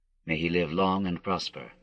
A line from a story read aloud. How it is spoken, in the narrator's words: he murmured mechanically